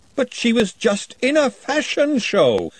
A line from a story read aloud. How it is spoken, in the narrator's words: wailed Glenda